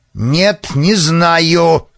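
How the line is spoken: Bark. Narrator (Russian): рявкнул Вард

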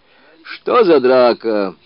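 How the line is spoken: Shout. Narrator (Russian): крикнул он

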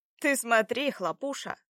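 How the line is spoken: Loud young man. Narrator (Russian): сказал громко один из парней другому

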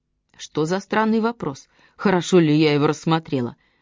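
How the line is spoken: Old woman grumbling. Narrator (Russian): ворчала старушка

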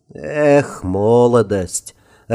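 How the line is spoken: Laughing mage. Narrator (Russian): рассмеялся Герт Фламберг, огненный мастер-маг первой категории

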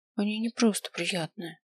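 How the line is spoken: Quiet. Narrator (Russian): проговорил я тихо

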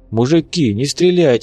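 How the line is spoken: Pleading. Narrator (Russian): взмолился чехол

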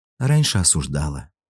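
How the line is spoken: Sigh. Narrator (Russian): вздохнула Аня

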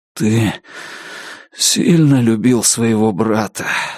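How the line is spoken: Hoarse. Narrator (Russian): сипло сказал Алан

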